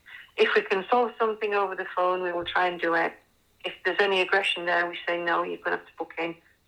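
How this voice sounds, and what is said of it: Yorkshire accent. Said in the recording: “Can you tell by the accent, any Yorkshire people?”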